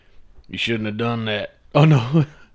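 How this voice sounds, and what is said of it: Cartoon character voice impression. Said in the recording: “the quote I've just done was fucking Cartman from South Park”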